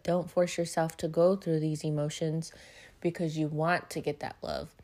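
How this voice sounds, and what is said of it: Flat, monotone, tired voice. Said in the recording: “I'm a little monotone. I am a little tired today.”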